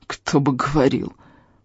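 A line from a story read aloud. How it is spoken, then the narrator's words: Hissing. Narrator (Russian): прошипел я ему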